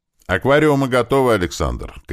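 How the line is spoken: Shouted while moving. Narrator (Russian): крикнул на ходу Кирилл

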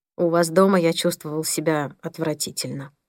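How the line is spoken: Barely audible. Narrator (Russian): произнес Пол чуть слышно

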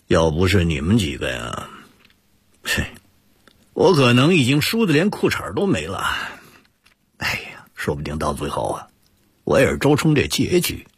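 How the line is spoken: Wry laugh. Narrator (Chinese): 毛俊苦笑着说

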